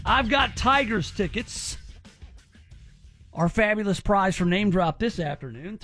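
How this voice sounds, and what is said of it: Slightly slurred speech. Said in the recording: “I'm slurring my speech a little today. I don't know if you noticed.”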